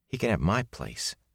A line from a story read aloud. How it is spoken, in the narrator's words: Matt muttered to Rand